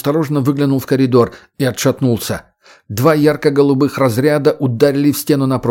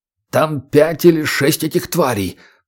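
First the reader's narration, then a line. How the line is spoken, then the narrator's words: Hoarse. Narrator (Russian): прохрипел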